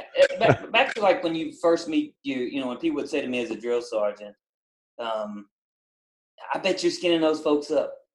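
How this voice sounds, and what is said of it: American country accent. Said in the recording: “you got to bear with my country accent”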